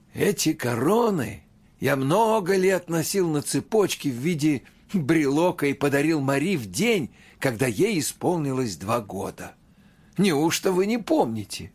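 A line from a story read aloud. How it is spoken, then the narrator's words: Godfather laughing, exclaiming. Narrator (Russian): крестный рассмеялся и воскликнул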